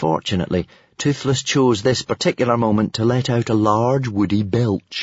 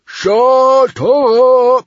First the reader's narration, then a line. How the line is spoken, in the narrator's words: roared Stoic